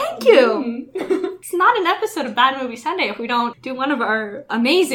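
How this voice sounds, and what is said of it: Usual voice. Nothing is said of it.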